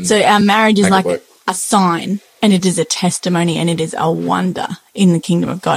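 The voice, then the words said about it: Strong Australian accent. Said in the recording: “I do have a very thorough Australian accent”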